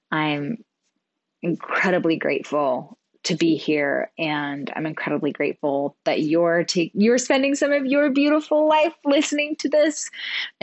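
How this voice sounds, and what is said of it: Teary, emotional voice. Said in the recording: “I'm like a little teary-eyed right now.”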